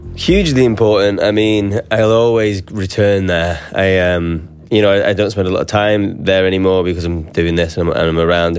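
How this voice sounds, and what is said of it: Northern English regional accent. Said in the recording (Dutch): “Zijn dialect valt meteen op ... having a regional accent and also not like a London accent ... Northern English accents”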